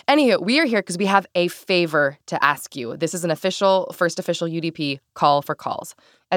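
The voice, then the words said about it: Sick, weird-sounding voice. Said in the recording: “incredibly sick ... That's why my voice sounds weird.”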